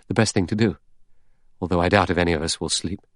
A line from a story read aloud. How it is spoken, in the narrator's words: The doctor murmured